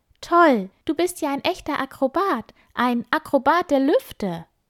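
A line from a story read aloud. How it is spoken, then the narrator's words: Excited call. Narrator (German): ruft Piepmatz begeistert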